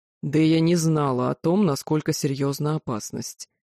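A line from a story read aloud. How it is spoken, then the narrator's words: Growl. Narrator (Russian): прорычал Тьер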